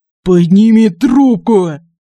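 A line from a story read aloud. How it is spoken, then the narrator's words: Growl. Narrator (Russian): прорычал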